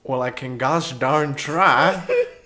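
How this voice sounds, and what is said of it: Put-on country western accent. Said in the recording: “Can you do a country western accent?”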